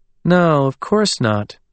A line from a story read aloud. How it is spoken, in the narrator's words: Philippa said in a calm, even voice